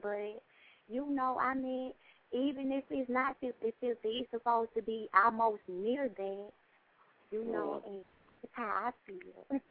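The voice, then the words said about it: Country accent. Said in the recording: “that country accent”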